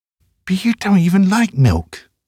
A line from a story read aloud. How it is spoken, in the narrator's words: pleads